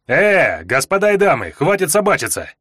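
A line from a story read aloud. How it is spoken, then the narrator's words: Sharp shout. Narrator (Russian): Прикрикнул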